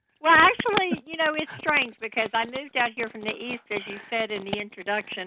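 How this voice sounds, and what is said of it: Southern drawl accent. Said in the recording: “You still get that southern drawl, though ... I never got rid of my southern accent for some reason. It just doesn't go away.”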